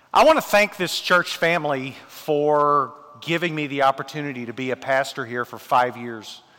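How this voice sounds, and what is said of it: Strong thick Tennessee accent. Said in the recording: “I don't have a, a, uh, Scottish accent, I have a strong, thick Tennessee accent.”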